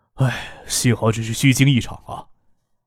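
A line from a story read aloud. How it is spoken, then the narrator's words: Soft sigh. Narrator (Chinese): 孙尚义轻叹了一声，说道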